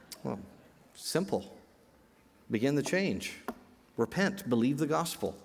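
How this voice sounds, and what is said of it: Usual voice. Nothing is said of it.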